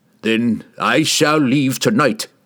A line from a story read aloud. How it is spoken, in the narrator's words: he roared